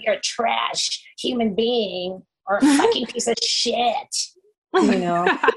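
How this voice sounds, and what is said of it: Impression of hostile online commenters. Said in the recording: “That's a very good impression of those people in the comments.”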